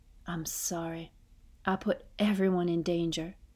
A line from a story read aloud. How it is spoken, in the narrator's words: whisper